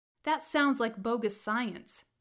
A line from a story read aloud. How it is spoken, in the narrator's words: he said